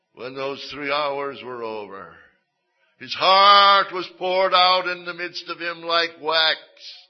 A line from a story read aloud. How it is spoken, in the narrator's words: the psalmist exclaimed